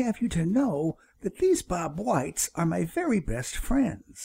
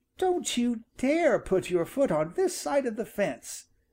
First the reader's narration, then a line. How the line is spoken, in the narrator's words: he cried